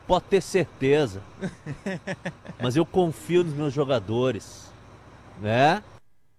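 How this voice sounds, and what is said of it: Imitates another person's voice. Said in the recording (Portuguese): “a imitação foi muito boa”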